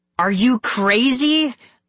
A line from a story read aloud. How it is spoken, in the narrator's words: I cried